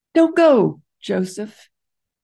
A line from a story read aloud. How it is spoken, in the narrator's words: Wally called out